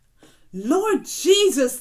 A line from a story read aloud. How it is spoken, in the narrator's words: they cried out